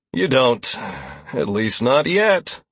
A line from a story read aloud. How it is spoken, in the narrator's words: Lazarus replied with a sigh